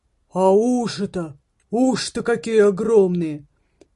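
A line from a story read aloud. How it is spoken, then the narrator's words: Man exclaiming. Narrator (Russian): воскликнул дядя Альфред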